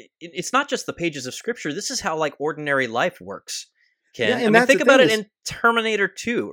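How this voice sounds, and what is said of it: Usual voice. Nothing is said of it.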